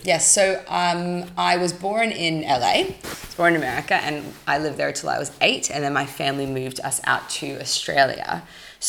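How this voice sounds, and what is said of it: Australian accent with American twang. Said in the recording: “your accent ... I think you're Australian, but I know, obviously, there's this American twang.”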